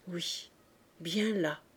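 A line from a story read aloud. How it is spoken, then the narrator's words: Murmured. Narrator (French): murmura-t-il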